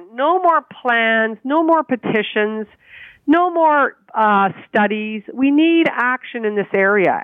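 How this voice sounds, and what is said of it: Frustrated, emphatic delivery. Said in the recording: “hear the frustration in my voice.”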